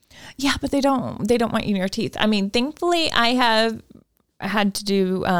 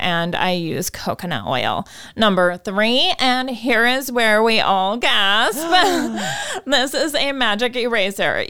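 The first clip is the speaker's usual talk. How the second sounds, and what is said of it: Put-on stereotyped white girl voice. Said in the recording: “I'm so annoyed by that voice that is coming out of your mouth ... the white girl voice”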